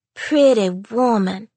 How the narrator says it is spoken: sighed Lizette

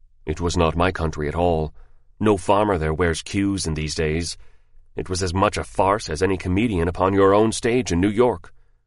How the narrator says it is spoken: He said very stiffly

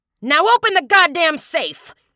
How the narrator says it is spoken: the gunman yelled at the clerk

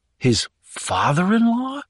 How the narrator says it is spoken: exclaimed Sean again

